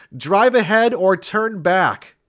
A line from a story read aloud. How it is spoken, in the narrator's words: Sam cried